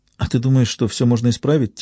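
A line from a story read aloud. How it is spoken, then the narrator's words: Quiet question. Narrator (Russian): тихо спросила Берил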